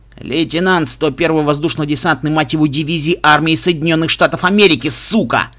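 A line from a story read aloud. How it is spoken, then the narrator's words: Barked shout. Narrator (Russian): рявкнул Стив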